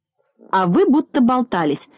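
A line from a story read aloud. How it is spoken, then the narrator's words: Snapping retort. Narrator (Russian): огрызнулся профессор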